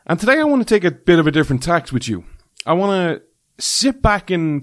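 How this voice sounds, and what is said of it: Irish accent. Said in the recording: “This Irish man ... the show where you come for the accent”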